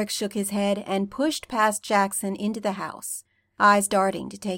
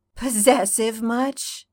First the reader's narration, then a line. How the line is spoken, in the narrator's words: Styles grumbled